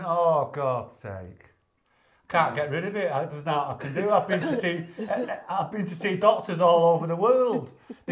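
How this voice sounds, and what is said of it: Manchester Northern English accent. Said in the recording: “with a proper Manc accent... Oh, that Northern accent.”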